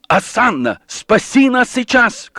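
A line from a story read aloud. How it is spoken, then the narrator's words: Crowd shouting. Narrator (Russian): кричал народ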